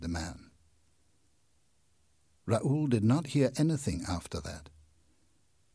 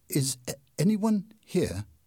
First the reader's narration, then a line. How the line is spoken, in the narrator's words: asked in a trembling voice